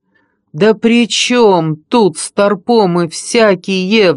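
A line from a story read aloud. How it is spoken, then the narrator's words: Howl. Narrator (Russian): взвыл я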